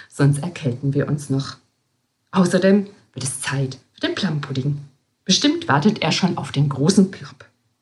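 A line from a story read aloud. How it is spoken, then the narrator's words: Nun whispering. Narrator (German): flüsterte Schwester Basilia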